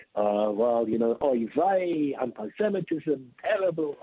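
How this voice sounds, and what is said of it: Put-on London Jewish accent. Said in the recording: “Could you do that Jewish accent again for me one more time? ... this is a London Jewish accent already ... So I would call it an English accent”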